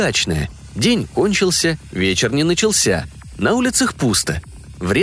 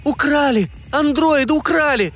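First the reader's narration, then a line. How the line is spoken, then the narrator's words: Girl shouting. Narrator (Russian): закричала Танюшка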